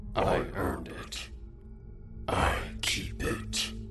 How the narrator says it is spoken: he said in a short, raspy tone

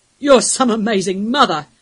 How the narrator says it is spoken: one of the older wolves bellowed at her

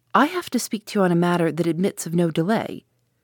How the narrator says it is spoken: I said coldly

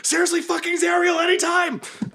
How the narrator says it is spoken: screaming

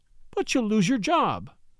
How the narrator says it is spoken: she cried

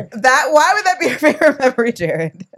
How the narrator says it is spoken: She laughed harder than I've ever seen her laugh in our entire relationship

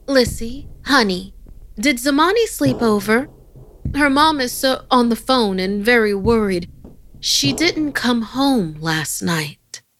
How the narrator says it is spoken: My mom called out

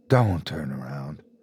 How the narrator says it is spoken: Ethan whispered

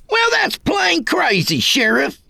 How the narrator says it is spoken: the kid bellowed

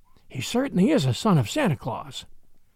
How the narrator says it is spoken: whispered Addie

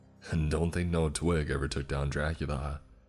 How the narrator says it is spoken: doesn't seem to care much, going as far as to chuckle and say the sentence

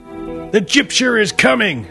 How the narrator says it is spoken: the preacher bellowed up and down the streets

